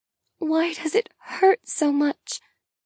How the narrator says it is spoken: My voice breaks

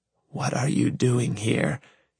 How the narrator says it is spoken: he whispers

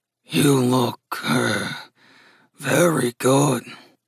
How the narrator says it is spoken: Gus said in a low growl, unable to help himself

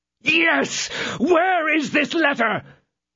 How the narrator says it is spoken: roared D'Artagnan

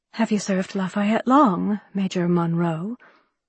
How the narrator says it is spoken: under my breath I said

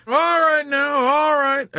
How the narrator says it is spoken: giggling like a crazy little freak

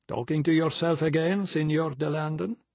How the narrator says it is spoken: he said cheerfully

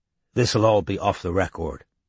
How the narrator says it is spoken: said Strike quietly

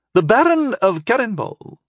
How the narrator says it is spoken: she said haughtily

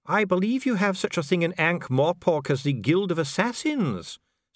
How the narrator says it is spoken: said Dee calmly

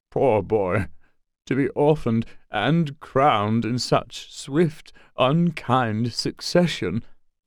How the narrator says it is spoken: he said brokenly

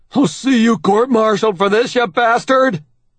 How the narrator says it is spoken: Monkberg hollers

